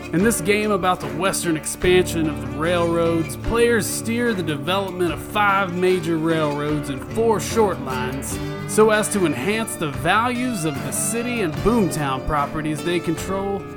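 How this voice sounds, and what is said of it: Put-on accent, spot on. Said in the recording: “I like the accent. ... I did too. That was spot on.”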